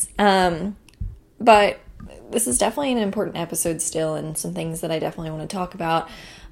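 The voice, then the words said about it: Sleepy just-woke-up voice. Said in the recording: “If you can't tell from my voice, it is the morning time. I'm still currently waking up.”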